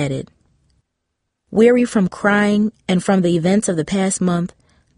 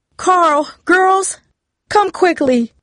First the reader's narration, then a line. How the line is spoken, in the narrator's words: Mom's voice cried